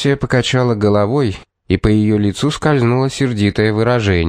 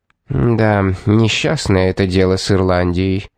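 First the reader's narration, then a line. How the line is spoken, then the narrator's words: Gloomy. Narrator (Russian): сказала она мрачно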